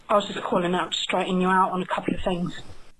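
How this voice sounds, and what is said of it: Harsh UK English accent. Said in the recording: “really harsh UK voice and accent ... that accent of hers is harsh”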